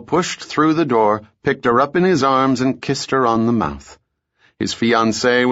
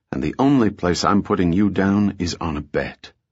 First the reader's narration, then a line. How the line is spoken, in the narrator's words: pressed his lips to her ear and added in a whisper